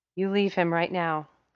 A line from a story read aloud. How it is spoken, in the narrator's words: Sam Winchester said through gritted teeth, panting